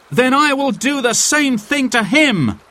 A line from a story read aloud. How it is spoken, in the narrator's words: cried Will Scarlet